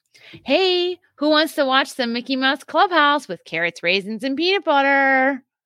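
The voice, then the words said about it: Cheerful put-on mommy voice. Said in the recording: “put on my best mommy voice”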